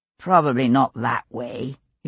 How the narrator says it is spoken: he replied calmly, though his heart beat a little faster

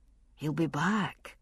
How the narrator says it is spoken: Jamie repeated, though in a gentler tone

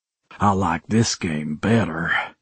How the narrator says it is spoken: I rasped

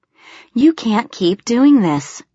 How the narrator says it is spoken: she groaned

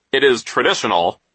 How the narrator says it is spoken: he said sternly

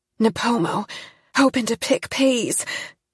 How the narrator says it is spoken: Jean panted

